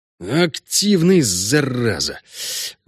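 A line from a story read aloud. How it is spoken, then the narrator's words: Breathless exhale. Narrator (Russian): выдохнул он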